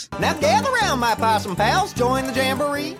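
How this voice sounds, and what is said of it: Thick over-the-top Southern accent. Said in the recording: “the most thick accent possible ... in the deep South ... the Goofy movie with the Possum Playhouse ... so over the top”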